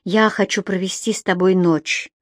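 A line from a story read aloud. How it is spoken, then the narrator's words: Breathless. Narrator (Russian): выдохнула Энсли, не собираясь отступать от своего решения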